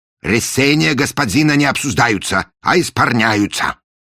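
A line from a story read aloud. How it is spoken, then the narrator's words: Stern pronouncement. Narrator (Russian): строго изрек он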